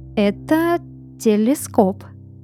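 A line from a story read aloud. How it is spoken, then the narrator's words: Slow. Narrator (Russian): медленно произнес Элиас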